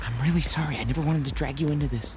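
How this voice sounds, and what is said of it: Whispering. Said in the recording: “What are you whispering about?”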